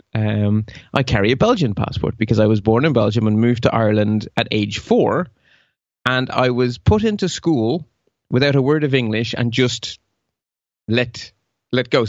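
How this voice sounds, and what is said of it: Irish accent. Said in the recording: “I have lived in Ireland, but I'm not genetically Irish ... despite the accent ... speaking English with a local accent”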